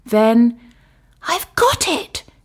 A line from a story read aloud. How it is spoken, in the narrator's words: she cried